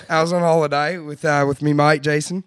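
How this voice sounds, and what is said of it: Put-on Australian accent. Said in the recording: “You have to talk to an Australian accent.”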